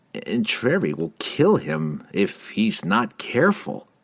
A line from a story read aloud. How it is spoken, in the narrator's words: Laval observed grimly